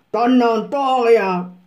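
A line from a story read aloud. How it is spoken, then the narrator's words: Roaring. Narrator (German): brüllte schließlich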